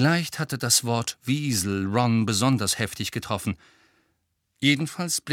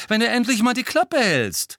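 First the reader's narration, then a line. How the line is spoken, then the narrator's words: Loud interjection. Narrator (German): warf Ron laut ein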